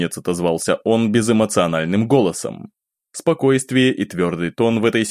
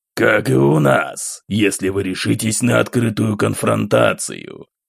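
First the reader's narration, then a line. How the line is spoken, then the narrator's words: Cold, unhesitating reply. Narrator (Russian): Холодно и без колебаний отозвался Романов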